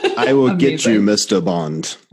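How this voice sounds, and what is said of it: Poorly done Bond villain accent. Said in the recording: “I know it was a horrible accent too”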